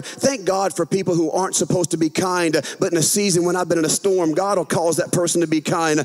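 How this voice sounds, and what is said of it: Southern US accent. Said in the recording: “I know that you guys are shocked that I'm from the South. You can't tell by my accent. ... I know, right? I'm from a northern state, Louisiana.”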